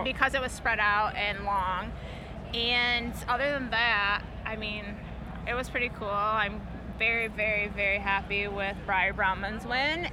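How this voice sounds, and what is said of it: Strong Michigan accent. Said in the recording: “that crazy accent ... Michigan”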